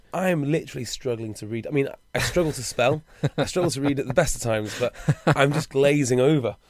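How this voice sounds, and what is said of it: Hoarse, worn-out voice. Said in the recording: “My voice is shot. A, from a bit of antics last night, but B, from standing on the sidelines shouting”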